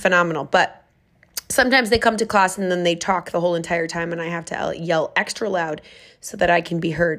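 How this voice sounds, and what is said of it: Raspy, hoarse voice. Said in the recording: “that's why I'm raspy. And it's not as bad. ... I can get a sexy voice just by running one class”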